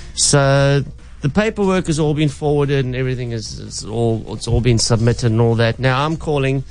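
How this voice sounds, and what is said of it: Usual voice. Nothing is said of it.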